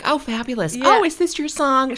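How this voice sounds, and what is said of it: Impression of Lisa Rinna. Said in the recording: “That was such a good impression.”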